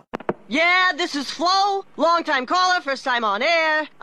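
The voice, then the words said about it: Sports talk radio caller voice. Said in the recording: “my impression of someone calling into Sports Talk Radio”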